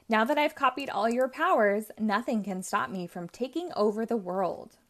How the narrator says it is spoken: Romeo laughs

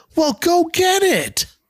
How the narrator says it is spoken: Mike shouts back

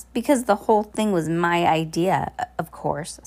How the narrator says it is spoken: said Olaf

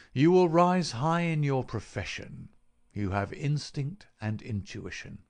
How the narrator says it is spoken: said he

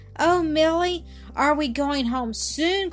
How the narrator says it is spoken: cried Annis breathlessly

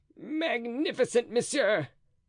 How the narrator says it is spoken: cried Planchet, trembling with emotion

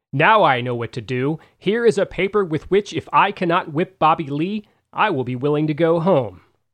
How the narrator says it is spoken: Mack exclaimed

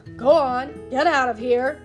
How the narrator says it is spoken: bellowed

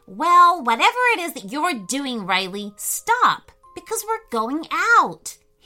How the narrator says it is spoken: he announced loudly

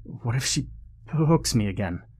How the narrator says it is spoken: Peter stammered

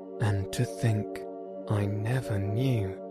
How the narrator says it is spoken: went on the toad in a dreamy monotone

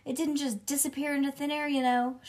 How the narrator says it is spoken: she hollered very loud

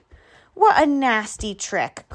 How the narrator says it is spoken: cried the animals

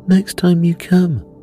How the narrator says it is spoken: laughed the girl in green

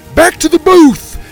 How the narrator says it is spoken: Theo shouted

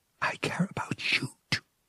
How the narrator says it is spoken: she whispered finally

